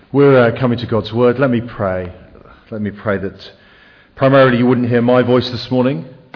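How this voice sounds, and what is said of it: English accent. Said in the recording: “lived in England for most of my life, which is why I have a very disappointing accent”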